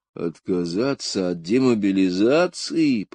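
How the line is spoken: Puzzled grumbling. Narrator (Russian): проворчал недоуменно Билл

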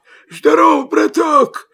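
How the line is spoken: Hoarse, wolf. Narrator (Russian): хрипит волк

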